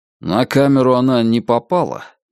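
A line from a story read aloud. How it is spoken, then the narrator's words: Hopeless question. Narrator (Russian): безнадежным тоном спросил Сташис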